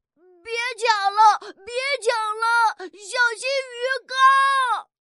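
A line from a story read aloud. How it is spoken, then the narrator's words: Repeated shouting. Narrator (Chinese): 王小毛在旁边直喊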